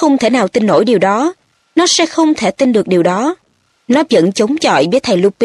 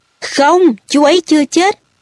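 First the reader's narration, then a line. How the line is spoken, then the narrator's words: Screaming. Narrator (Vietnamese): Harry gào lên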